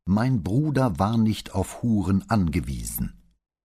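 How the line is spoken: Loud theatrical declaiming. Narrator (German): Dann sagte sie laut, als deklamiere sie auf der Bühne

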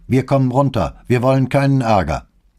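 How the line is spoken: Man calling from above. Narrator (German): rief ein Mann von der Tür oben an der Treppe

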